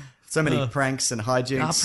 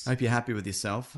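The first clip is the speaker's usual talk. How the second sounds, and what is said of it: Sarcastic tone. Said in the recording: “you said that sarcastically,”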